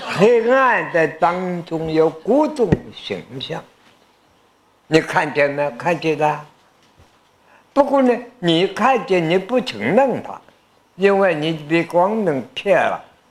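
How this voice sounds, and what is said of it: Strong regional Chinese accent. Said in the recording (Chinese): “苏州的朋友听懂我的口音吗？”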